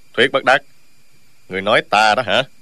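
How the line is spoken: Sudden cold interruption. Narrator (Vietnamese): Dương Tiêu đột nhiên lạnh lùng ngắt lời

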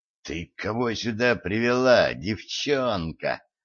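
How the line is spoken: Hissing, no burr. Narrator (Russian): Без малейшего намека на картавость прошипел Гедеоныч

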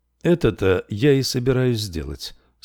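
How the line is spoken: Calm. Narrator (Russian): спокойно продолжал Даришло

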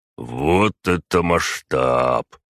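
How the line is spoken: Breathed out in awe. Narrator (Russian): выдохнул Ярослав Иванович

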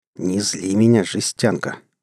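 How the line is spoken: Seething, through gritted teeth. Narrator (Russian): Медленно закипая, процедил я

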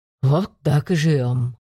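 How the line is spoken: Understanding sigh. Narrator (Russian): понимающе вздохнул Дмитриев

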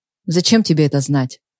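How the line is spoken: Rough question. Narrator (Russian): грубо прозвучал его вопрос

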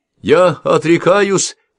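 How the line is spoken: Shouted. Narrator (Russian): крикнул кто-то

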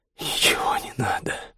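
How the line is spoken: Hoarse, breathy. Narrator (Russian): хрипло выдохнул Костя

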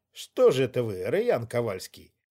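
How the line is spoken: Inner thought, snort. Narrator (Russian): хмыкнула я мысленно

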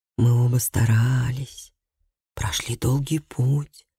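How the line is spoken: Whispering. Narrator (Russian): шептал он

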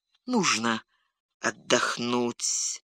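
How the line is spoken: Muttering. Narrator (Russian): пробормотал он снова

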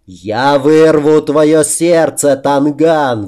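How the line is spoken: Old man's roar. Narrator (Russian): взревел старик

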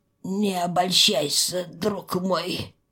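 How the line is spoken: Wheezing. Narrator (Russian): прохрипел Рыжий

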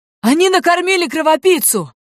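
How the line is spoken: Yelling. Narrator (Russian): заорал первый, влетевший в сарай

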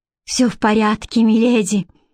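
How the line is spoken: Sighing. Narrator (Russian): вздохнула Бренна

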